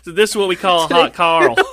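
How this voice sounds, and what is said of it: Distinct put-on Southern accent. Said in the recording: “a like very distinct southern accent”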